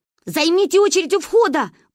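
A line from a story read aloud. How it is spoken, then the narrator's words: Hurried shout over crowd. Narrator (Russian): успела нам крикнуть сестра до того, как ее поглотило цунами любителей индийского кино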